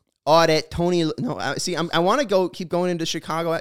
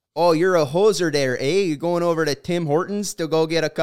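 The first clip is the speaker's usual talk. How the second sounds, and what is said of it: Put-on Canadian accent. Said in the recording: “Can anyone here do a Canadian accent?”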